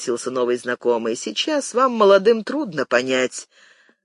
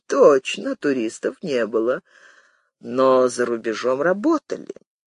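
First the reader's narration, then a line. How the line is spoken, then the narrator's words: Old man, calm. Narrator (Russian): спокойно ответил старик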